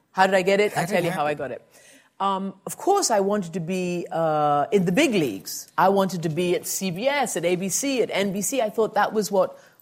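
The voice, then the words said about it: Intriguing non-American accent. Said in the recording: “You have an intriguing accent, but it's not an American accent.”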